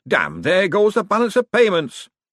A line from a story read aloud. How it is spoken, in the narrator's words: a faint, muffled voice shouted